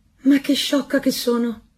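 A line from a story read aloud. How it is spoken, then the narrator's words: Woman exclaiming. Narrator (Italian): esclamò la marescialla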